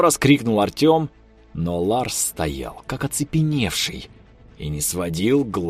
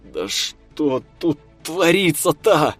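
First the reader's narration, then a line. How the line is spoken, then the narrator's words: Groan. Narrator (Russian): Простонал Артем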